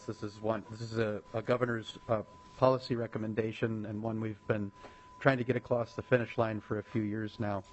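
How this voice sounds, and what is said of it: Voice affected by a cold. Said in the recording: “I'm battling a bit of a cold, so I apologize for my voice.”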